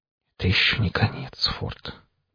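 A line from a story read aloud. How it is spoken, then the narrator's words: Whisper. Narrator (Russian): прошептал я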